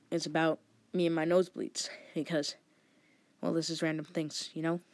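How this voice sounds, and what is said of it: Congested, stuffed-up nasal voice. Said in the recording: “I sound a bit stuffed up because I had a nosebleed last night”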